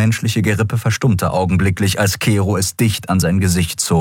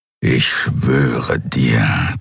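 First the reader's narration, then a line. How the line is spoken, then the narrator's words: Skriar growling. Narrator (German): knurrte der Skriar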